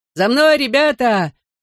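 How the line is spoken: Shouted. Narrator (Russian): крикнул нам Дэви Рэй

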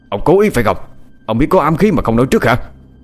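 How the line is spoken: Angry shout. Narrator (Vietnamese): Tên cầm đầu bên kia quát lên

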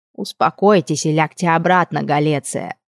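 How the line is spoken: Demanding, grating voice. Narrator (Russian): Потребовал он до жути противным голосом

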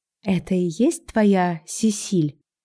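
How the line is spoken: Quiet question. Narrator (Russian): тихонько спросила я его

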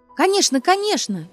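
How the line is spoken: Shrill laughter. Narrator (Russian): визгливо засмеялась Ася

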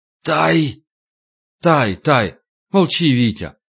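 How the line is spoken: Hoarse wheeze. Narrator (Russian): прохрипел

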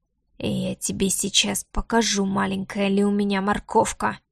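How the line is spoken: Low, suppressed growl. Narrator (Russian): низко проговорил он, глуша в голосе рычание

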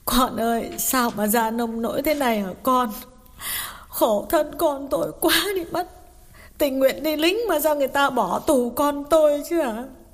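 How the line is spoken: Tearful mother asking. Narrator (Vietnamese): Bà mẹ mếu máo hỏi

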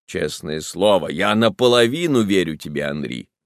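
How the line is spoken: Exclaimed. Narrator (Russian): воскликнул Казимир

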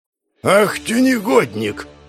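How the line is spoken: Distant growl. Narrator (Russian): рыкнул он еще на нижних ступенях

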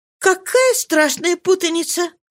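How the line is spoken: Timid exclamation, faint smile. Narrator (Russian): воскликнула робко, слабой улыбкой

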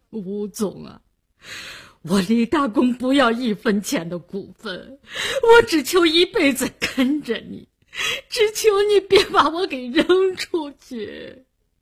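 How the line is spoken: Crying. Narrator (Chinese): 李大公哭了，他哭着说

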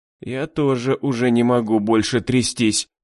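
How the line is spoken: Moaned. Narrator (Russian): простонала Энн

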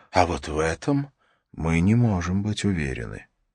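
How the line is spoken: Quiet. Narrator (Russian): тихо сказал

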